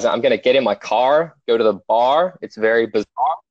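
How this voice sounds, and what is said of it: Put-on American accent, pronounced Rs. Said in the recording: “The secret for Australians to do an American accent is that we don't pronounce the letter R. You guys do pronounce the letter R.”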